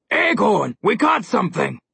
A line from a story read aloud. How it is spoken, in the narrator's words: said the low, growly voice of the smaller